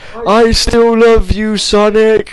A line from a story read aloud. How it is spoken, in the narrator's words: someone who screamed